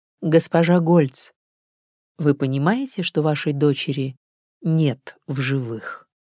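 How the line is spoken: Restrained, nearly even voice. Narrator (Russian): совладала с собой и произнесла почти ровным голосом

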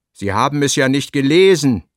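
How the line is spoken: Sharp. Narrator (German): sagte Esch scharf

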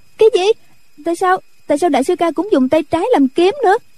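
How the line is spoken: Startled frightened cry. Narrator (Vietnamese): Nhạc Linh Sang giật mình sợ hãi, cũng la lên

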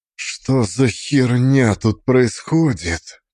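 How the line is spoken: Shaken whisper. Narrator (Russian): Прошептал Корней, его лицо было цвета мела

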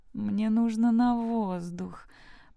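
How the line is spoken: Moan. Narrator (Russian): простонала Элли

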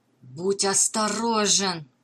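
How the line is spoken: Hiss. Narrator (Russian): прошипел ему вслед Дженкинс

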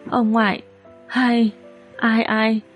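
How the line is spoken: Choked with emotion. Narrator (Vietnamese): Tần Đồng Nguyệt nghẹn ngào mở miệng

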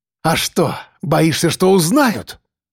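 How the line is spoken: Triumphant, through teeth. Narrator (Russian): Торжествующе процедил Андрей

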